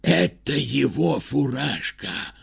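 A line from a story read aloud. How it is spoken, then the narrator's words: Whispered. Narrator (Russian): прошептали они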